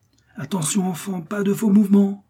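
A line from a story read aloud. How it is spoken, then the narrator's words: Exclaimed watchfully. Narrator (French): s'écria, qui la guettait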